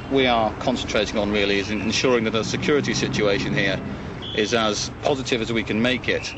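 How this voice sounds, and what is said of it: British accent. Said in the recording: “The accent is decidedly British.”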